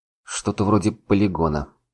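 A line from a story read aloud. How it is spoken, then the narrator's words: Mumbled. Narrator (Russian): пробормотал я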